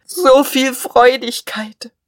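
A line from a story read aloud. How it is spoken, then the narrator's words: Sobbing. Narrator (German): er schluchzte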